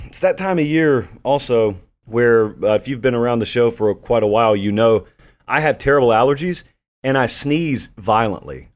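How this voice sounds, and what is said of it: Hoarse, worn-out voice. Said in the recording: “Oh, my voice is going ... it rips my vocal cords. So you can tell. I mean, I don't have a whole voice right now.”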